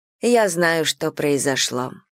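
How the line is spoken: Quiet. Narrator (Russian): тихо сказала Имаджин

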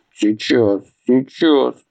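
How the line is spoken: Exhausted drained mumble. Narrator (Russian): пробормотал измученный Атхи, ощущая себя сраженным и выпитым

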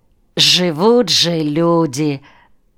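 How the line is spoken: Sigh. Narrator (Russian): Вздохнул он

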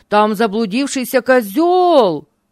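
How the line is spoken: Shouting. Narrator (Russian): закричал

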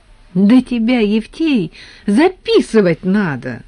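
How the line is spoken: Exclaiming. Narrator (Russian): воскликнул Леонтьев

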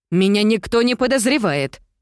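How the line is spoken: Exclaimed. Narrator (Russian): воскликнула

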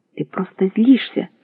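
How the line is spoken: Shouting. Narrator (Russian): кричала она

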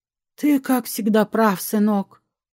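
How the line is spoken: Sighing mother. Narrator (Russian): вздохнула матушка

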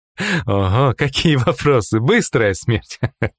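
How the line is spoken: Laughing. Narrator (Russian): Рассмеялся Алькарон

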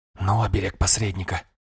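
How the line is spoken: Whisper. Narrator (Russian): шепнул

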